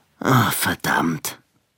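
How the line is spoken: Sighing. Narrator (German): sagte Billy mit einem Seufzer

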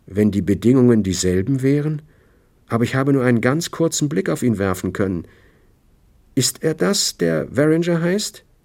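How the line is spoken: Hesitant. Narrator (German): sagte sie zögernd

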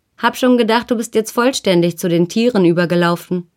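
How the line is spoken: Called out. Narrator (German): Edith rief

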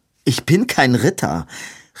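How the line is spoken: Calling out a reminder. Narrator (German): rief Robin ihm ins Gedächtnis

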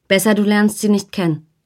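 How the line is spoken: Plain. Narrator (German): sagte sie

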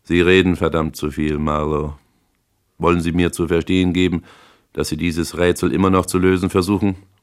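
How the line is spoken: General, calm. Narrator (German): sagte der General ruhig

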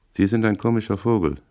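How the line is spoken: Flat, toneless. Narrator (German): sagte er tonlos

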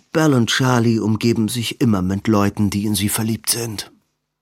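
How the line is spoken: Tired speech. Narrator (German): sagte Edwin müde

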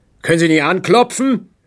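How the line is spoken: Barking snap. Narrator (German): bellte er Spranklin an

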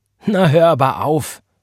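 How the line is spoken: Laughing. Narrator (German): lachte Sister McCandless

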